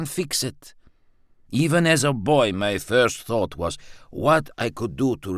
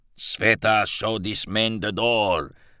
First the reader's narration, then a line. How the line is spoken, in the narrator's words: Father growled